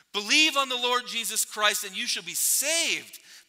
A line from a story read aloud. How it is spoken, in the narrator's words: pleaded Harper